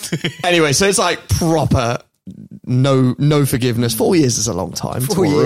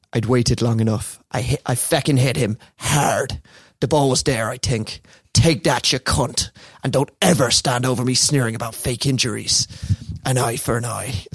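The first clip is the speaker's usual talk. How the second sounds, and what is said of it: Put-on accent drifting West Country. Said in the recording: “went a bit West Country. It's a hard accent.”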